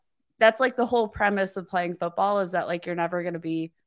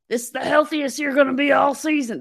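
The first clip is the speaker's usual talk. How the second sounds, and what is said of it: Imitates another person's voice. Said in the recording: “That's my Dan Campbell impression.”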